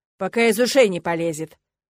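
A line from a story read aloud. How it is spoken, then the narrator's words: Barking boar. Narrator (Russian): рявкнул кабан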